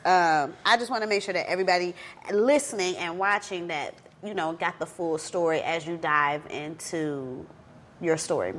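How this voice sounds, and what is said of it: Nasal, congested voice. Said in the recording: “I sound nasally, y'all. Baby, uh, daycare germs.”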